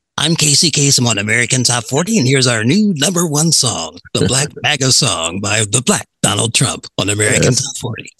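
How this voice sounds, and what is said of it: Casey Kasem radio host impression. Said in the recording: “great impression”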